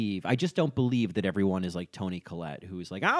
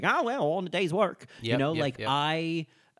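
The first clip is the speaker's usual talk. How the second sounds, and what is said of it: Bad Australian accent drifting Southern. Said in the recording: “That was the worst Australian accent I've ever done. It just ended square in the middle of Kentucky”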